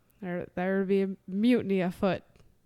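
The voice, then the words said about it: Put-on pirate accent. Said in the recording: “I don't think that's a terrible pirate accent.”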